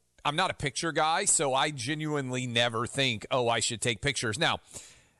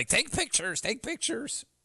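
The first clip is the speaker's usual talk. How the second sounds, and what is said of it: Imitates another person's voice. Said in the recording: “That's my impression”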